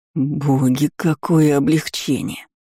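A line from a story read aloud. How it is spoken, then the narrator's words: Relieved exhale. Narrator (Russian): выдохнул Эдгар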